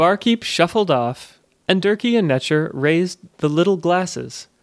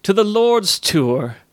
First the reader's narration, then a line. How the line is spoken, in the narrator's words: exclaimed Durkey, with a sudden burst of jollity